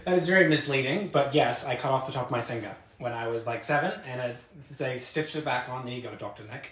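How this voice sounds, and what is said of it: New Zealand accent. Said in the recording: “you may hear his accent. He is from New Zealand”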